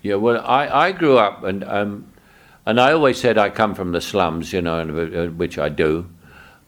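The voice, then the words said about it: Cockney accent. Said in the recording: “the most famous Cockney accent ever”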